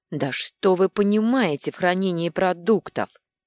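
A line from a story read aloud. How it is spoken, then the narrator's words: Flustered words through teeth. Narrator (Russian): процедила, покрываясь красными пятнами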